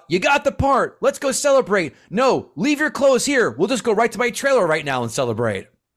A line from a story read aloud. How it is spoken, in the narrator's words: Cruise yelled out